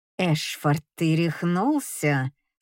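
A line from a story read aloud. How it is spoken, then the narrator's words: Strained through gritted teeth. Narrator (Russian): сквозь зубы выдавливает Дельфина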